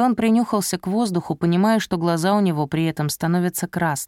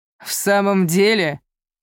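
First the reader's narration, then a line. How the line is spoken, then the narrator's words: Mocking man, trembling voice. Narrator (Russian): Насмешливо ответил мужчина, но его голос, без сомнения, задрожал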